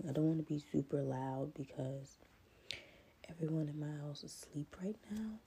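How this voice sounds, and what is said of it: Scratchy just-woke-up voice. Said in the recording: “My voice sounds scratchy because I just woke up”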